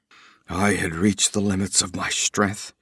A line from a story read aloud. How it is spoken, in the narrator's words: he muttered